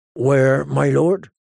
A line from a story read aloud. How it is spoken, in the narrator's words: His voice was flat and lifeless